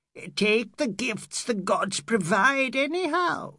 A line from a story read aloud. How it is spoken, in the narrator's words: she screeched